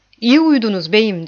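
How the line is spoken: Plain. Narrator (Turkish): dedi

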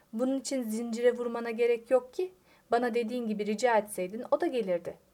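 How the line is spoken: Plain. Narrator (Turkish): dedi Tubek

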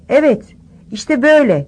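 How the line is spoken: Shouting. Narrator (Turkish): diye bağırırken

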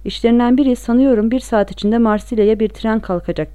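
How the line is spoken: Plain. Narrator (Turkish): dedi

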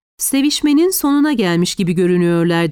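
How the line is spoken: Plain. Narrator (Turkish): dedi

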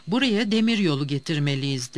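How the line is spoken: Plain. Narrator (Turkish): dedi

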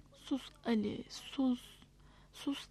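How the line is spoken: Whispered into baby's ear. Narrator (Turkish): diye bebeğin kulağına fısıldadı Nilüfer

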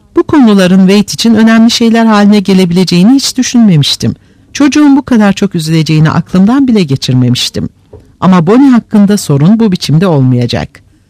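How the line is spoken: Very calm voice. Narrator (Turkish): Red gayet sakin bir sesle

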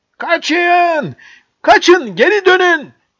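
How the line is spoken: Shouted. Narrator (Turkish): diye haykırdı

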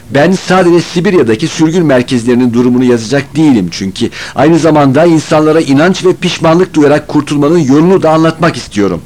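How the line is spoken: Plain. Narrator (Turkish): dedi

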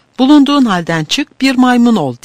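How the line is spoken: Crying out. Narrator (Turkish): diye haykırarak

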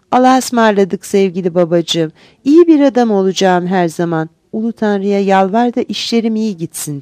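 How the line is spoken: Plain. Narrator (Turkish): dedi

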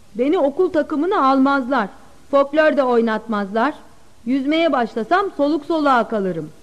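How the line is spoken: Plain. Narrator (Turkish): dedi

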